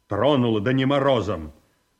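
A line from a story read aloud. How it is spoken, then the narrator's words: Curt, clipped. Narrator (Russian): отрывисто сказал Павел Антонович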